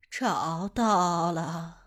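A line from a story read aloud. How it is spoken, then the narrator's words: Hoarse, icy cold. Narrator (Chinese): 大姑声音粗嘎，还冷冰冰的说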